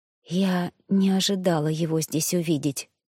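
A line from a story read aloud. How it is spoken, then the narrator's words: Whisper. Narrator (Russian): прошептала я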